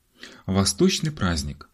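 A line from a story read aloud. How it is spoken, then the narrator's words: Exclaim. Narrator (Russian): воскликнул Ларри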